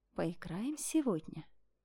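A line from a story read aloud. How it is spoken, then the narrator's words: Whisper. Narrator (Russian): ее шепота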